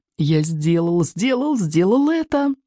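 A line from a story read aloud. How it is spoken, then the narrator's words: Joyful inner singing. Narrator (Russian): радостно запел про себя Икинг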